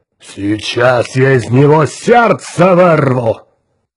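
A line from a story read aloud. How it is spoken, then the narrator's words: Growling giant. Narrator (Russian): прорычал зеленый гигант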